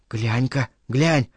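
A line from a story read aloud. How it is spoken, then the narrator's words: Quiet conversation. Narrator (Russian): Переговаривались они тихо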